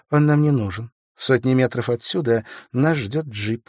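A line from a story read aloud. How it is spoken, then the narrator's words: Plain. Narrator (Russian): сказала Виктория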